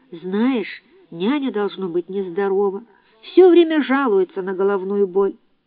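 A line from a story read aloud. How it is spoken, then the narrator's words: Timid. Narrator (Russian): Ева робко добавила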